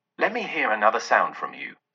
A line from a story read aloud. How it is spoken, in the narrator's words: said Scrooge